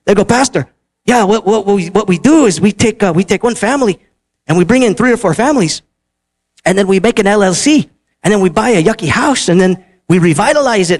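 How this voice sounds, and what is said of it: Put-on Spanish accent. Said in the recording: “can I do my Spanish accent, right? My family accent, can I do that, right? My heritage accent?”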